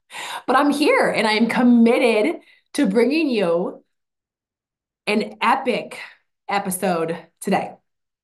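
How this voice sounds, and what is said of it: Hoarse, mostly lost voice. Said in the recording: “if you can hear it in my voice, it's kind of gone”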